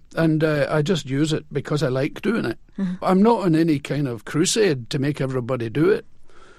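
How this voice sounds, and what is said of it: Scottish accent. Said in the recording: “What about you is Scottish? I mean, obviously, your accent, your speech”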